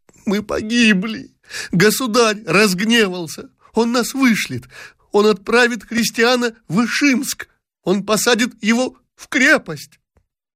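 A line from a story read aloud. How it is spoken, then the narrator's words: Terrified sobbing exclamations. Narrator (Russian): Дашенька, перепуганная, рыдала, восклицая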